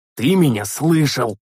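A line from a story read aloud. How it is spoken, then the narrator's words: Angry, curt. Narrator (Russian): зло отрезал я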